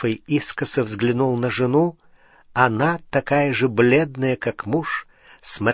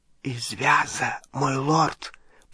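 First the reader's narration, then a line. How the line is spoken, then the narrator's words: Whispered. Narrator (Russian): прошептал Малфой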